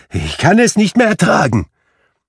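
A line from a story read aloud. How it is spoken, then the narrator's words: Exclaimed. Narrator (German): rief Scrooge aus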